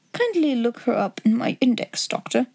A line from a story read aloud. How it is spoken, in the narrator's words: murmured Holmes